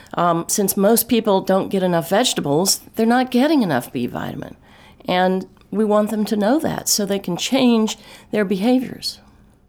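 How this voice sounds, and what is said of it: Slight Texas accent. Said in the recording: “I believe you're from Texas... Do you hear that accent?... Just a little bit.”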